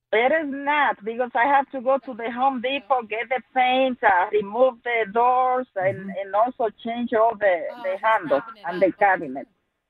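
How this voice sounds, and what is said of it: Speaker with a noticeable accent. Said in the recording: “she has a great accent ... your accent is fantastic ... Your accent is fantastic ... I love your accent”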